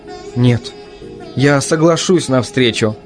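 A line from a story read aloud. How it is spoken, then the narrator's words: Uncertain. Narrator (Russian): неуверенно сказала Люсенька зеркалу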